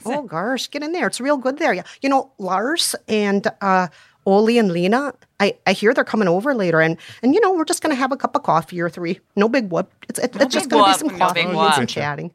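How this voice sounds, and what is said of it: Put-on Minnesotan accent. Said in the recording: “practice your Minnesotan accent”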